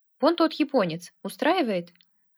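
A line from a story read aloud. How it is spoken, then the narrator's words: Plain. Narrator (Russian): ответил я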